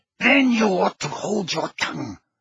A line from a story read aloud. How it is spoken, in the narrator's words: snarled Bellatrix